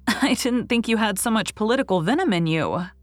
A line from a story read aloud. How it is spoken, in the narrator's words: laughed Anne, who was not so much excited over the tidings